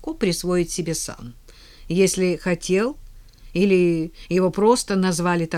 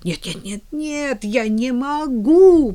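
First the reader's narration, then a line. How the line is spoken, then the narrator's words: Moaning. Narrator (Russian): простонала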